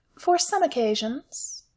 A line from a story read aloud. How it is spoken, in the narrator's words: Alice said sweetly